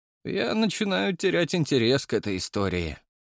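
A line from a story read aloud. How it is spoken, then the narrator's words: Gloomy statement. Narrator (Russian): мрачно сообщил я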